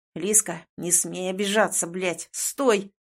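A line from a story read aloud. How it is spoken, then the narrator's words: Irritated growl. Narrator (Russian): раздраженно рычит мне Ваня в спину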